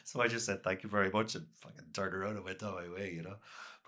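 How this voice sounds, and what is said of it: Irish Cork accent. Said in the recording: “my normal Cork accent”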